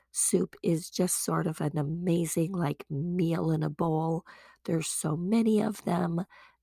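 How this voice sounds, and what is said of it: Raspy voice. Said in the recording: “my raspy voice ... when you have a sore throat”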